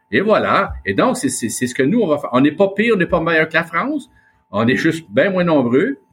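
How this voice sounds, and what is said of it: Québécois French accent. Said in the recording (French): “notre accent ... l'accent québécois est l'accent de France de l'époque ... le patois 17e”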